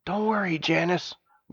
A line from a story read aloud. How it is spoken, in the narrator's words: whispered Stavius